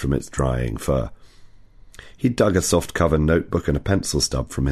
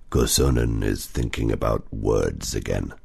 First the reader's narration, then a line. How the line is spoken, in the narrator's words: Otso growled